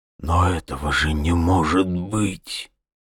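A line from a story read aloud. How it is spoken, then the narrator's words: Whisper. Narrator (Russian): прошептал он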